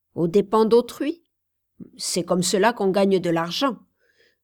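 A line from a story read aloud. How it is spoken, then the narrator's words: Curt reply. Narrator (French): répliqua sèchement M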